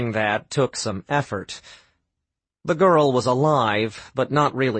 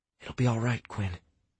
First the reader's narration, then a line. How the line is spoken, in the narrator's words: Sam whispered